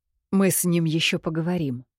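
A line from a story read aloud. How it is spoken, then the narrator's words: Quiet. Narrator (Russian): тихо ответила я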